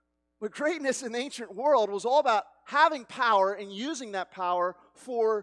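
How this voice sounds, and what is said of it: Usual voice. Nothing is said of it.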